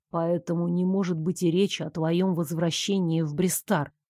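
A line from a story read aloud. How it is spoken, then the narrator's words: Quiet concluding. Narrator (Russian): тихо завершил Нико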